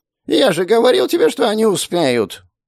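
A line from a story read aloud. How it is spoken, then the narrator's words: Thin, nasal, pleasant voice. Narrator (Russian): Его голос оказался тонким и гнусавым, но неожиданно приятным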